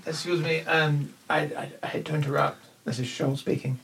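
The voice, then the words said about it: Deliberately bad put-on accent. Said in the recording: “terrible accent.”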